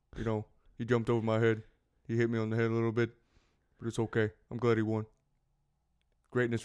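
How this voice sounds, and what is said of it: Imitates another person's voice. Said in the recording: “That was me doing a Shaq impression.”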